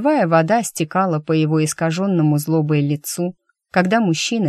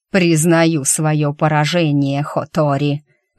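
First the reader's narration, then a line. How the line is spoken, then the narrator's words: Furious roar. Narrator (Russian): в безудержной ярости прорычал он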